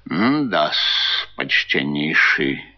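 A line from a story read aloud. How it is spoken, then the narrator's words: Thoughtful mutter. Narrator (Russian): пробормотал мировой в раздумии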